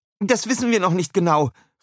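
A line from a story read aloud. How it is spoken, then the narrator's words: Shouting. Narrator (German): rief Mrs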